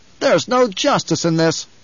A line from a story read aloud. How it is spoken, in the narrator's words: One of Halleck's aides down the table swiveled in his chair, snapped